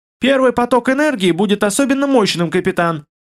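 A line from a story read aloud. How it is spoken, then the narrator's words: Squeak, then normal male voice. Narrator (Russian): пискнул интеллект и, на секундочку запнувшись, продолжил обычным мужским голосом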